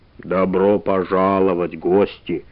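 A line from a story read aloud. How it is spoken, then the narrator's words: Rough voice. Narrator (Russian): сказал он грубым голосом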